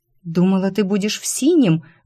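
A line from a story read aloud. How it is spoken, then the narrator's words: Exclamation. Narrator (Russian): воскликнула девушка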